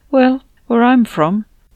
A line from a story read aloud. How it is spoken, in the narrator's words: I answered with a small sigh